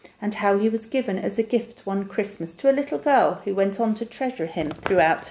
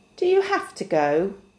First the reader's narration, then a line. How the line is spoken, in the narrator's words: asked Barty